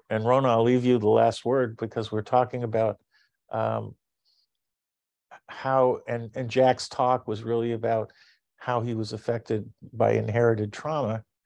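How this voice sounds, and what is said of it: Hoarse, fading voice. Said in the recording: “you can see how I'm losing my voice.”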